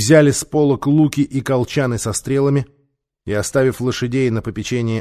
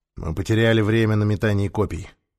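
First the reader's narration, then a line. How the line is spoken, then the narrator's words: Gloomy. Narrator (Russian): мрачно сказал ему Нефер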